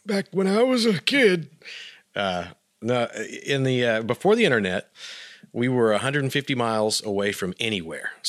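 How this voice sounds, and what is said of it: Old man voice. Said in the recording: “I have to use my old man voice for this”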